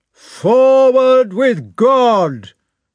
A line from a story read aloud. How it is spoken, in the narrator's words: said Bagration, in a resolute, sonorous voice